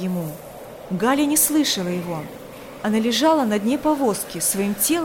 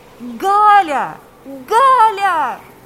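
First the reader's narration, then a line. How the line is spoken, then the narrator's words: Shouting. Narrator (Russian): кричал Павел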